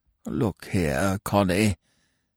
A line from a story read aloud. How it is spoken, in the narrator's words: he grumbled feebly